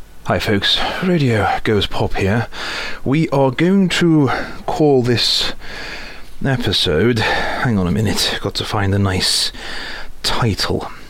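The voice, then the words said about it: Out of breath, panting. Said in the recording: “I'm out of breath, I've just run up the stairs”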